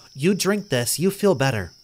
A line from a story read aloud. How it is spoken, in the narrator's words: she said warmly